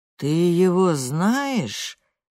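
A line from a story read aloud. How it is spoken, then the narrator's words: Steely interruption. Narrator (Russian): стальным голосом перебивает Йоун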